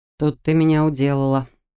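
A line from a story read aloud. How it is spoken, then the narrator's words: Demon's short laugh. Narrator (Russian): хохотнул демон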